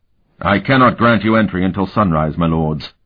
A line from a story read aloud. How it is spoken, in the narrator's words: the captain said firmly